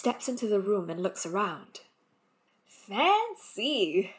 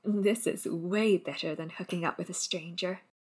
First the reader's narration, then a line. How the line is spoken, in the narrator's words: he whispers